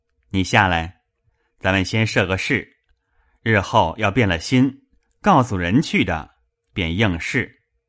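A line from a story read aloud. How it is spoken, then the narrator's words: Laughing. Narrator (Chinese): 向薛蟠笑道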